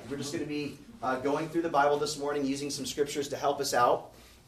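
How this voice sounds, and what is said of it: Rough, strained voice. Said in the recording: “My voice is kind of jacked up”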